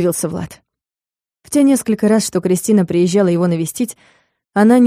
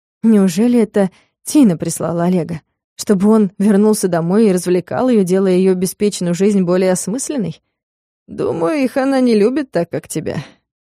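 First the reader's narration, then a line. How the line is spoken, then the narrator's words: Sighing. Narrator (Russian): снова вздохнул Олег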